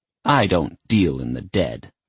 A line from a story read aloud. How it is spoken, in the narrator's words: the witch spat